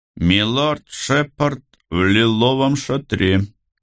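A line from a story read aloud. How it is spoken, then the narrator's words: Muffled booming guard. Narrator (Russian): прогудел гвардеец из-под забрала шлема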